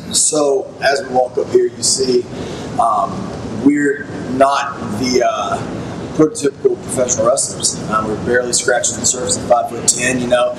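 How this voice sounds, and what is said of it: Authentic Southern accent. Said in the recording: “I have a completely authentic Southern accent”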